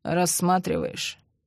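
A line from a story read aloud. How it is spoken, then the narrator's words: Grumbling mutter. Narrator (Russian): бурчал во время процесса Андрей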